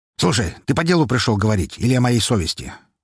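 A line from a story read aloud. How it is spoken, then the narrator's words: Angry question. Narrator (Russian): зло спросил он в ответ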